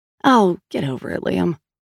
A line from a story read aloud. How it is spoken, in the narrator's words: Sal said, sighing